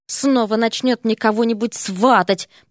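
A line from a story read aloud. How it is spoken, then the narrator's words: Mumbling. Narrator (Russian): пробормотал Эрик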